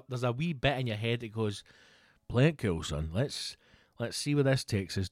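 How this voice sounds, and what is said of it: Scottish accent. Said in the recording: “she can hear the accent. I'm like, Scotland.”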